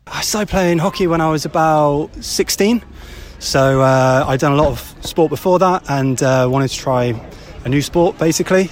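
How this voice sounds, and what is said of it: Southern English Dorset accent. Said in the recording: “You can maybe tell from my accent I'm not from Macclesfield ... down south in Dorset, where I'm from”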